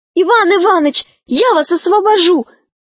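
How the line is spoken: Shouted. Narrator (Russian): крикнула она

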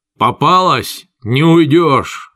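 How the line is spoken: Yell. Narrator (Russian): завопил тормансианин

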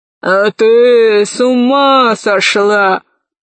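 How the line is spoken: Growling roar. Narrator (Russian): зарычал император

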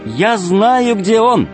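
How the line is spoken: Shouted. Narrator (Russian): крикнула Алиса

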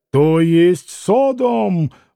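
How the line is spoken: Sudden roar. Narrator (Russian): взревел вдруг пан Врублевский

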